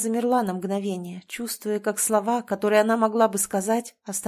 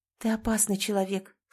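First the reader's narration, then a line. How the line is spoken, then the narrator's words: Quiet woman's voice. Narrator (Russian): сказала женщина тихо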